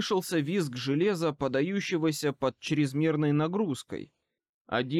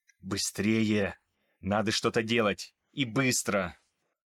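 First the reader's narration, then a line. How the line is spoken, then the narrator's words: Hissed. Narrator (Russian): прошипел Томас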